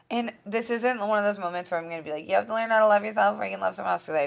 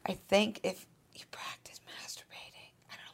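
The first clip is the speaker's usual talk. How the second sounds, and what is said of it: Whispering. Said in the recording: “why I'm whispering”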